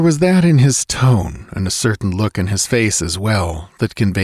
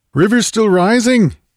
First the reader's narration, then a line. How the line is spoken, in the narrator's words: he cried